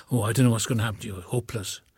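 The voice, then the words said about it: Imitated Welsh accent. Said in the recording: “in his Welsh accent”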